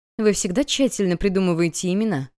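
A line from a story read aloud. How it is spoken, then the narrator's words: Chuckling. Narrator (Russian): хохотнула Вив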